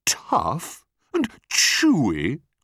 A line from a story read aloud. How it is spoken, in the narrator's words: cried the enormous crocodile